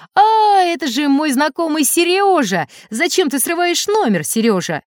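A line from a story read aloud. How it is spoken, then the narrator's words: Joyful loud shout. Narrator (Russian): Дрессировщик, пораженный в первый момент, пришел в себя и радостно закричал на весь цирк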